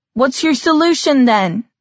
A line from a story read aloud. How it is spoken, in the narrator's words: someone else shouted